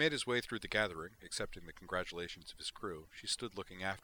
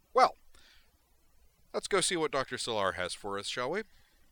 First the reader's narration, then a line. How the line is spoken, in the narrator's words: cheerfully said in a loud voice